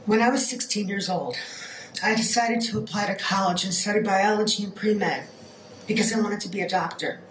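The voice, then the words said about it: Hoarse voice from a cold. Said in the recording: “I've been battling a little bit of a cold this week. I lost my voice.”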